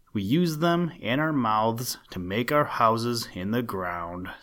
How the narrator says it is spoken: said another

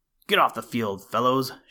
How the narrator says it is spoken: shouted Green

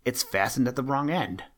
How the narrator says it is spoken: exclaimed Peter

